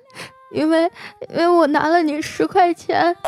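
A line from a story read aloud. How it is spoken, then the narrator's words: Crying. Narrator (Chinese): 我当时啊哭着说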